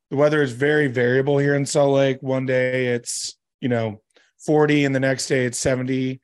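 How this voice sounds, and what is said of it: Sick voice from a cold. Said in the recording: “apologize for my voice. Unfortunately, I have finally caught whatever bug tends to go around this time of year.”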